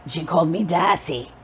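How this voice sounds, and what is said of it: Raspy imitated Boston accent. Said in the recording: “a wicked Boston accent ... she was from Boston, and she smoked like a chimney, and so she talked like this.”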